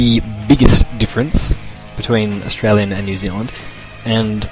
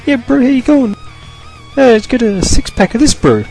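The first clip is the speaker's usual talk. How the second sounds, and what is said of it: Imitated Maori New Zealand accent. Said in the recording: “the New Zealand Maoris ... the Polynesian people, like islanders, Pacific Islanders ... they have a really funny accent. They all sound the same ... They just sound ridiculously funny.”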